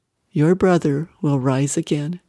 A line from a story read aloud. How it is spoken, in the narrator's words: in a loving voice said